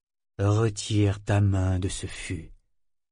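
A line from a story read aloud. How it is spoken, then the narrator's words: Mother speaking low. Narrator (French): dit sa mère à voix basse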